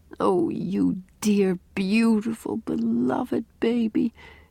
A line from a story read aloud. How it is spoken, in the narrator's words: she mumbled